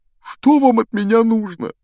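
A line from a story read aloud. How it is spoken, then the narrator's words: Whiny tearful question. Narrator (Russian): Плаксивым голосом спросил преподаватель защиты от темных искусств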